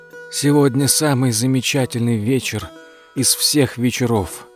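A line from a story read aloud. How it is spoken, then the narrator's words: Hoarse old man. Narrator (Russian): начал сипло старик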